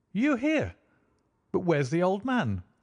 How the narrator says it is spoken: I exclaimed

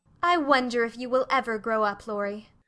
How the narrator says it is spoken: said Meg in a matronly tone

